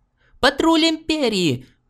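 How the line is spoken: Officer shrieking. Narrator (Russian): взвизгнул офицер Лиги

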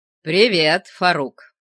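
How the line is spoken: Booming voice. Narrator (Russian): прогремел

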